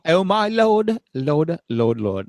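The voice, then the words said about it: English accent. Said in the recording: “can you sing that in an English accent now?”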